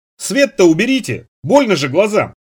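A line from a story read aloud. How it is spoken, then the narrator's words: Shouted reply. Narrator (Russian): Нанос выкрикнул в ответ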